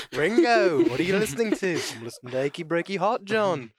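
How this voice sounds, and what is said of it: Put-on British accent. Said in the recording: “Whenever you get so excited, you always pop into a British accent.”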